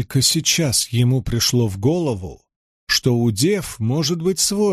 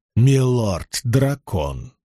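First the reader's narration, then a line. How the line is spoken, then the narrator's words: Attempted grumble. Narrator (Russian): должно было сойти за ворчание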